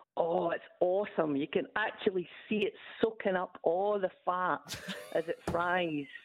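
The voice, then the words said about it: Scottish accent. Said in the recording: “I love your accent. ... is it true the Scots”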